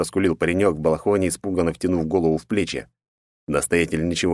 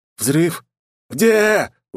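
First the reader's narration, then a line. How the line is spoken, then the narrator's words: Roared. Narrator (Russian): уже взревел Филарет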